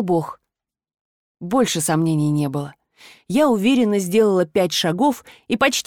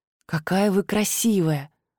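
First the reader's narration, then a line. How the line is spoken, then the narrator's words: Breathless exhale. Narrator (Russian): выдохнула Сабина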